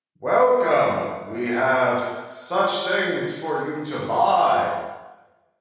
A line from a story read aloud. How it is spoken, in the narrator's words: a voice in the distance, someone shouting from just around the corridor